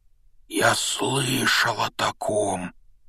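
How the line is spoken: Strangled voice. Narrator (Russian): произнес он сдавленным голосом

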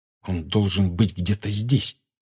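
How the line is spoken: Tense anxious whisper. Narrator (Russian): прошептал Гарри, каждую секунду ожидавший увидеть в темноте скорчившуюся на полу фигуру Сириуса

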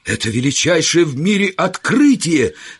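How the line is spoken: Excited exclamation. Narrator (Russian): воскликнул я, хотя во мне заговорил темперамент не столько естествоиспытателя, сколько журналиста

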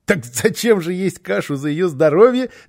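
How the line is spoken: Small child laughing. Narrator (Russian): рассмеялся малыш

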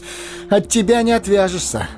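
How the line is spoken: Laughing. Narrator (Russian): засмеялся Фродо

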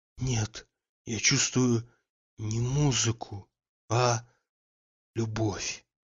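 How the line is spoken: Quiet. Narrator (Russian): тихо сказал Обломов

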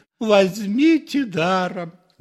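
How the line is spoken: Exclaiming. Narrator (Russian): воскликнул отец Федор

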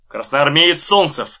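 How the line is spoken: Loud announcement. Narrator (Russian): сказал он так громко, чтобы услышали все

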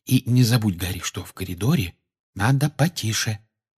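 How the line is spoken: Whispered reminder. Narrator (Russian): шепотом напомнила ему Гермиона

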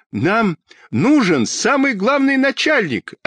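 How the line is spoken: Desperate yelling. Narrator (Russian): отчаянно заорал Петька

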